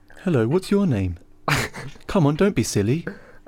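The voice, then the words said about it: Louis Theroux impression. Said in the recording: “Louis Theroux impression”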